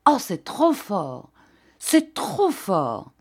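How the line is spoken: Outraged, trembling exclamation. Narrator (French): le baron s'écria, outré de surprise et frémissant

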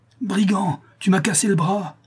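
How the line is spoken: Pained cry. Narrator (French): s'écria-t-il

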